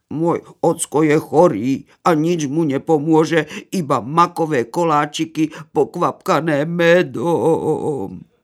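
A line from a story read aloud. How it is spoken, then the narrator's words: Wolf cub lamenting. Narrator (Slovak): nariekalo vlča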